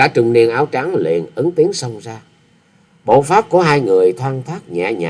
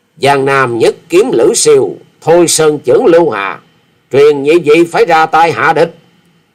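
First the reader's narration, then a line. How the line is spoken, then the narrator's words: Furious, through gritted teeth. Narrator (Vietnamese): Quyết Ma Thể Y Nhân đã hết nổi chế dằn được, thì giận dữ nghiến răng ken két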